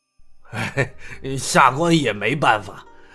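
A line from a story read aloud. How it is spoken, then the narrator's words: Helpless wry laugh. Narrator (Chinese): 赵都统无奈的笑了笑道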